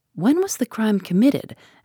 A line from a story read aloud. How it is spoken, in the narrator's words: asked Poirot